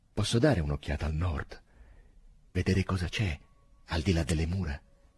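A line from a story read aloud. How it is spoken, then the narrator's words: Seemingly calm question. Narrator (Italian): chiese con voce apparentemente tranquilla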